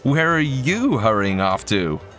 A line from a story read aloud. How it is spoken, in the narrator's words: My voice rose to a hysterical pitch